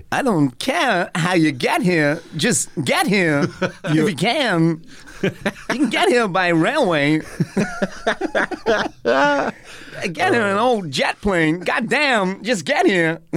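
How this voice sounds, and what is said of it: Imitates another person's voice. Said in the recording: “I'm so happy you're doing Christopher Walken. ... you do great impressions.”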